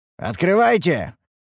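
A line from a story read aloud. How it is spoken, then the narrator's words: Sharp group shout. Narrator (Russian): прикрикнули мы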